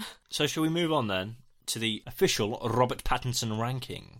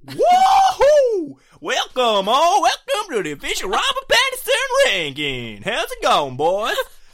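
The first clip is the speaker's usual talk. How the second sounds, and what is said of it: Put-on cowboy accent. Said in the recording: “I want you to do, like, cowboy voice... Okay, cowboy voice.”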